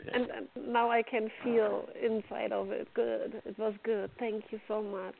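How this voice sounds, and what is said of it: German accent. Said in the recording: “Where's your accent from? ... From Germany.”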